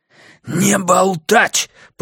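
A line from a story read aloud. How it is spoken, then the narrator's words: Hissing. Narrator (Russian): прошипел Миртон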